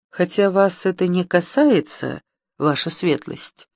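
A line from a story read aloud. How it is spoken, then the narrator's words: Plain reply. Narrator (Russian): ответил молодой человек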